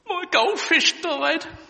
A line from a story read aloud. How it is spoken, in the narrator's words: replied the girl tearfully